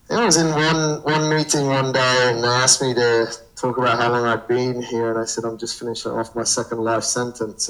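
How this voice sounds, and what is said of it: Mixed English accent, northern roots. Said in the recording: “I'm originally from England, from the north of England is where my family's from, but I don't think people can tell much by my accent these days because it's kind of a bit all over the place”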